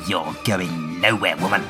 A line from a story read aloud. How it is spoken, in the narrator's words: he snarls